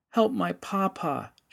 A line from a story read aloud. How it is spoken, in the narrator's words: she sobbed